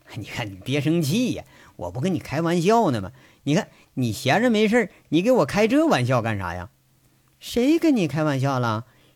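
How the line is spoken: Fawning, cajoling laugh. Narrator (Chinese): 杨伟一看周玉慧有点生气了，这才血笑着，舔着脸说着

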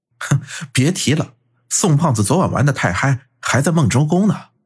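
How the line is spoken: Snickering. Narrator (Chinese): 孙威嘿嘿一笑

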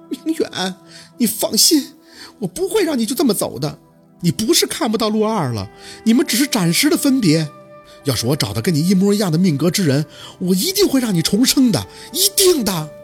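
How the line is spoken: Woman's tearful voice. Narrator (Chinese): 一个女人带着哭腔的声音响起

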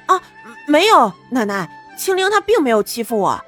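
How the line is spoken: Embarrassed, hurried. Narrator (Chinese): 白清九的脖子都红了，急忙说道

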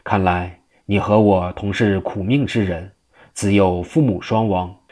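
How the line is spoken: Sighing. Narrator (Chinese): 何清叹道

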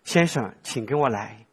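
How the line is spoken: Gentle. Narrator (Chinese): 那个服务小姐很温柔的对我说

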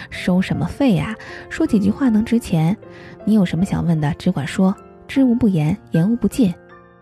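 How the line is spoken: Hearty laughter. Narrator (Chinese): 张发财哈哈哈的一下子笑出了声

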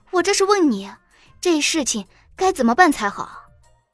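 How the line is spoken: Mildly angry. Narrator (Chinese): 小林夕有些温怒的说道

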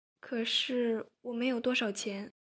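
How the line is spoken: Tempted, quiet reply. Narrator (Chinese): 周兰很心动，他小声的回应

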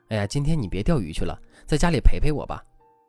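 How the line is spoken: Aggrieved, pleading. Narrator (Chinese): 她心里也一直憋着一股气，特别委屈，就跟丈夫说

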